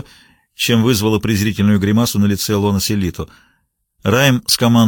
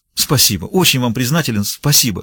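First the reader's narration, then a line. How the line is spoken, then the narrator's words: Relieved exclamation. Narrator (Russian): с явным облегчением воскликнул тот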